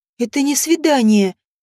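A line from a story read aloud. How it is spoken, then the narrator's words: Wheezing. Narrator (Russian): просипела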